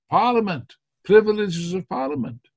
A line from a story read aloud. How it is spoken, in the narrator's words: the other party shouted